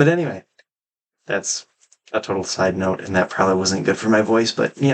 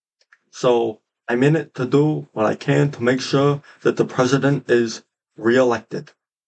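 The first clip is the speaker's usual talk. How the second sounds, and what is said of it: Bernie Sanders impression. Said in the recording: “my Bernie impression. I think that's so spot on ... I do a pretty dang good Bernie impression”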